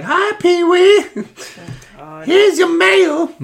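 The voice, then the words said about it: Exaggerated cartoonish character voice. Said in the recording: “You sound like Bob Belcher when he does his, like, Thanksgiving turkey voices.”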